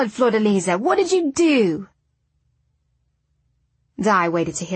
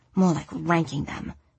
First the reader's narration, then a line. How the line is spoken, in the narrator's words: she muttered